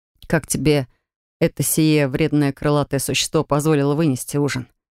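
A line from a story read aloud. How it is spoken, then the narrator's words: Snorting. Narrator (Russian): хмыкнул третьекурсник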